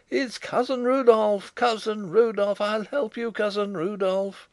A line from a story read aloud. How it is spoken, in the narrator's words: the half-mad, wasted one creature in the corner leapt high in lunatic mirth, shrieking